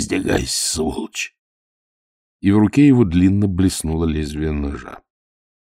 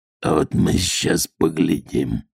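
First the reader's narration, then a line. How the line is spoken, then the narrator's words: Sudden hoarse voice. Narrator (Russian): внезапно хрипло сказал матрос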